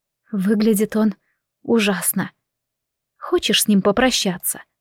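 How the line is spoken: Uncertain, quietly hopeful question. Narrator (Russian): спросила мама неуверенно, но с затаённой надеждой

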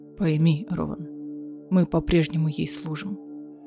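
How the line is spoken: Muffled, hollow voice. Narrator (Russian): глухо произнес Гарель

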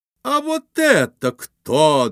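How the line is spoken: Friendly shout. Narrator (Russian): дружелюбно закричал Остап

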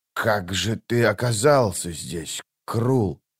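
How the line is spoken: Trembling voice. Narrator (Russian): спросил он дрожащим голосом

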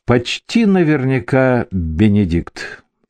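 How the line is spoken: Plain. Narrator (Russian): ответил Ноткер

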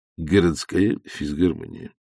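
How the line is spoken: Coarse janitor-like voice. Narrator (Russian): Александр Ибн Иванович сказал дворницким голосом

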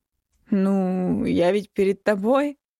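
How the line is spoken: Laughing. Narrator (Russian): рассмеялся Эмирас

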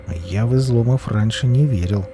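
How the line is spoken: Strangely quiet beggar's mutter. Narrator (Russian): странно тихо пробормотал нищий

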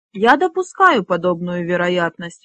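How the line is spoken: Calm. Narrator (Russian): спокойно сказал предводитель Бендена

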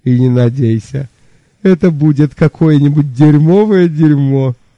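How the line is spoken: Cheerful declaration. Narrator (Russian): жизнерадостно заявил Лонли Локли

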